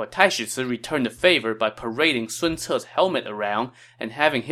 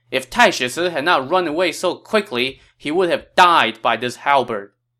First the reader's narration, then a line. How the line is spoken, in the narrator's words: Sun Ce had his soldiers shout